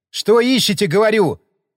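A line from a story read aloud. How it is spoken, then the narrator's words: Barked. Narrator (Russian): рявкнул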